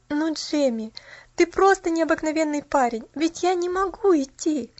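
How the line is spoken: Laughing. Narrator (Russian): Рассмеялась Поллианна

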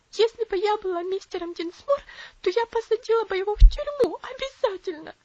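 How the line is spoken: Sobbing woman. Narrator (Russian): всхлипывала она

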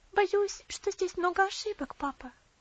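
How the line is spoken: Timid voice. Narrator (Russian): робко произнесла

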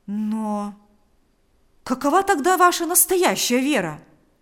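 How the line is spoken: Exclaimed. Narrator (Russian): воскликнул Павел

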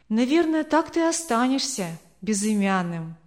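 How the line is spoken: Sad joking mother. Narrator (Russian): грустно пошутила его мама

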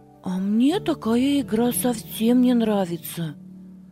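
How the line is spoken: Plain. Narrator (Russian): сказал Алёша

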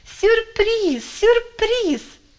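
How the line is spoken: Cheerful shouting. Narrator (Russian): весело кричала Олечка

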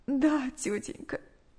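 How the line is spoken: Tearful reply. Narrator (Russian): сквозь слезы ответила Наташа

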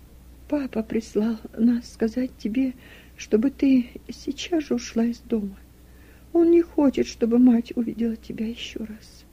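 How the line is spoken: Tearful. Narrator (Russian): Руфь проговорила сквозь слезы

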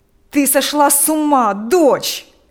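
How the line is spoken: Father shouting. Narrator (Russian): кричал отец

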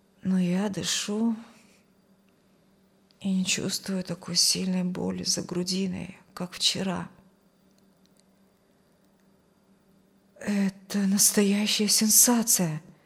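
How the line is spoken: Muttering nurse. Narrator (Russian): пробормотала медсестра

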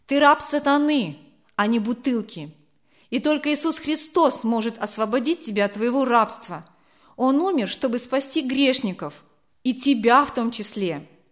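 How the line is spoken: Preachy, instructive tone. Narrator (Russian): поучительным тоном проговорила Зина

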